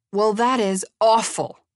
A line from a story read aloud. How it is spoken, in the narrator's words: he shouted